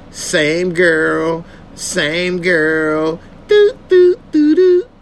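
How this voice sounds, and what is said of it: Imitates another person's singing voice. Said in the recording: “my Ronald Isley impression”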